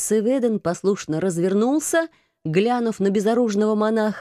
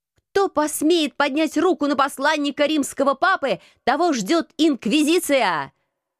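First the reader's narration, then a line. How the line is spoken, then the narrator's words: Menacing shout. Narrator (Russian): Грозно выкрикнула я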